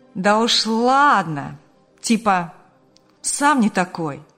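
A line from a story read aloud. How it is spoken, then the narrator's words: Cheeky drawl. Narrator (Russian): Развязно протянул товарищ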